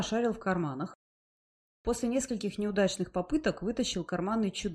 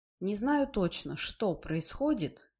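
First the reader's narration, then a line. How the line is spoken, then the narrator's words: Low calm voice. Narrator (Russian): произнес Чудакули низким спокойным голосом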